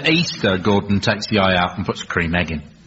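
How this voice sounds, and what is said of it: Poor generic Scottish Gordon Brown impression. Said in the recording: “That was a rubbish Gordon Brown impression. ... It was my generic Scottish”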